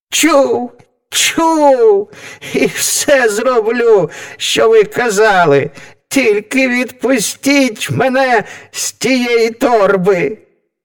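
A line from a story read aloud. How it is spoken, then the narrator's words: Devil shrieking. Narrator (Ukrainian): Заверещав дідько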